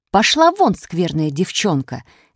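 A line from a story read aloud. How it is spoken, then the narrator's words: Angry mother. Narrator (Russian): сердито сказала мать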